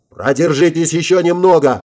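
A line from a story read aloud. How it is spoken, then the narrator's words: Urgent yell. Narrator (Russian): завопил я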